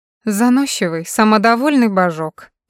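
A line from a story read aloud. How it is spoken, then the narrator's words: Grumbling. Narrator (Russian): проворчала Кэрри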